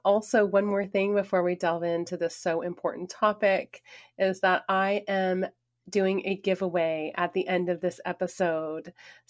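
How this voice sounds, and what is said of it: Hoarse, raspy voice. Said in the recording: “my voice is a bit hoarse or raspy ... if I sound funky”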